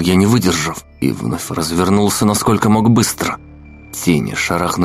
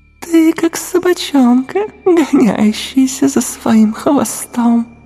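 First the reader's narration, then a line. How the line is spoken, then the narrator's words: Giggling shadow. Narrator (Russian): хихикнула тень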